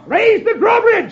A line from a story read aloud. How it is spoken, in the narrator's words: the sheriff shouts